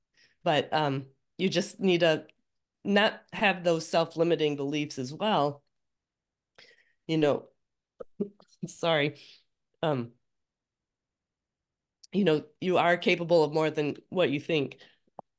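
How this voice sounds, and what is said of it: Strained, fading voice. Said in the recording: “I'm losing my voice. ... I'm going to keep coughing.”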